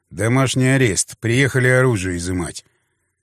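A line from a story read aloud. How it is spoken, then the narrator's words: Quiet. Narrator (Russian): негромко произнес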